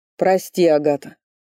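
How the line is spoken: Tearful groan. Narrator (Russian): простонал Ричард, утирая кулаком слезы

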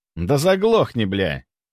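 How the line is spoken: Snorting. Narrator (Russian): фыркнул главарь

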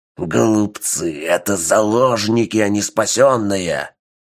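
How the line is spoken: Enraged growl. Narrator (Russian): прорычал взбешенный вампир

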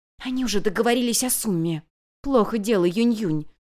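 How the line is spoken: Whisper. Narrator (Russian): прошептала Лисянь

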